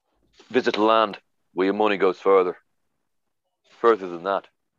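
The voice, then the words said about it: Put-on Dublin Irish accent. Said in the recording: “That's a Dublin accent. ... My impression.”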